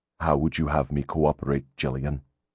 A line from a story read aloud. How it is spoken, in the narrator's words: He asked in a flat, dead voice